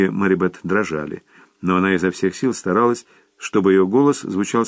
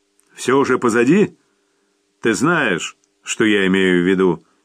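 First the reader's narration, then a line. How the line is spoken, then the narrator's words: Harsh, rough question. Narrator (Russian): Безжалостно и грубо спросил отец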